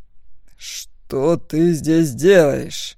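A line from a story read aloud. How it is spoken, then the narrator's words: Dragon muttering through teeth. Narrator (Russian): процедил дракон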